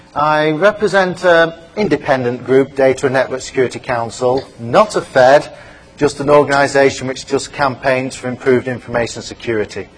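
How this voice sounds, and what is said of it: British English accent. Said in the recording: “As you can probably tell from my accent, I'm not from the States, I'm from the UK.”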